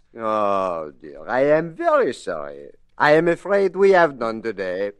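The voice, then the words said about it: Put-on French accent. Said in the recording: “Now, watch my French accent.”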